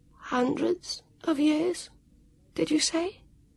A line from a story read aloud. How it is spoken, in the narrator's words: asked croakily